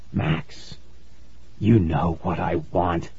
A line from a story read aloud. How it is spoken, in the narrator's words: he whispered